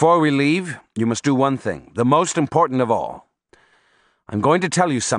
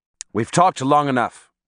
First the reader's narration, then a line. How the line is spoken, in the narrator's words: Don Juan said in an abrupt tone